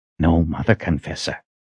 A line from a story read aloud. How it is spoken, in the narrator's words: said in a quiet tone